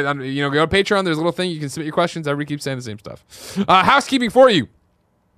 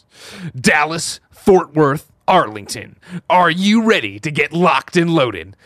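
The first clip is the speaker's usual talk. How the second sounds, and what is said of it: Hyped sports announcer voice. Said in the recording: “announcer voice.”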